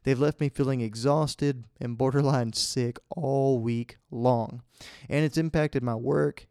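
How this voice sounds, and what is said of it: Congested, under-the-weather voice. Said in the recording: “this week I've been beat up by allergies. I know y'all guys can hear it in my voice.”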